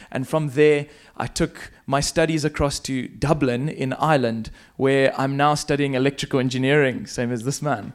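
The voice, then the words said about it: South African accent. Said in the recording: “I went to South Africa. That's the funny accent that I have”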